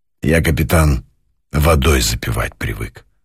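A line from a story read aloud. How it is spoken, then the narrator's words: Muffled, dull voice. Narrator (Russian): глухо сказал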